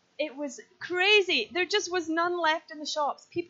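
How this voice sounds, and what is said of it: Usual voice. Nothing is said of it.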